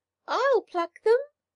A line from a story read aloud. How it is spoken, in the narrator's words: piped the young sparrow, who had no feathers yet